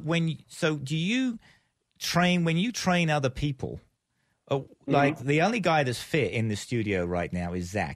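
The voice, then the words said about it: Heavy South Texas accent. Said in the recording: “my heavy Texas accent ... you sound like you're really from South Texas, the accent”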